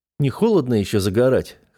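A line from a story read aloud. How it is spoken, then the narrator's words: Wry snort. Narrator (Russian): хмыкнул я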